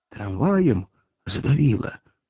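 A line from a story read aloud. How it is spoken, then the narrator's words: Whispered question. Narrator (Russian): шепотом спросил Поплавский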